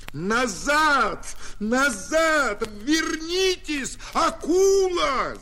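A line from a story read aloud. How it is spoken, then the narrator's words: Shouting in alarm. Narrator (Russian): закричал артиллерист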